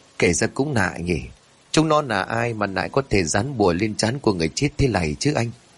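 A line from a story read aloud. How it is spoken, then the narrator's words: Puzzled question. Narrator (Vietnamese): Thằng An nghi hoặc rồi hỏi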